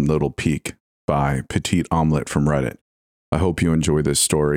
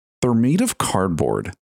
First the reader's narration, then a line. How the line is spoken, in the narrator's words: Matt grumbled